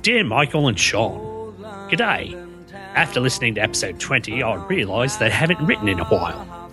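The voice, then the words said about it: Put-on Australian accent. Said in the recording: “read this in an Australian accent”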